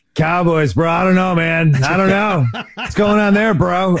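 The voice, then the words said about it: Imitates another person's voice. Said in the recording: “doing an incredible Pat McAfee impersonation”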